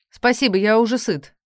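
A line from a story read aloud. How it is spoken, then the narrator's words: Angry spat words. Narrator (Russian): злобно выплевывает отец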